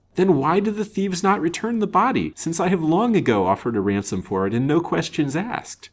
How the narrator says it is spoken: said the banker, impatiently

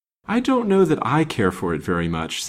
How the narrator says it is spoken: said the widow, with a light sigh

